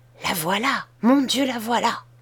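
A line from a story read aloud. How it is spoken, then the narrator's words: Speaking very softly. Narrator (French): dit tout bas Betty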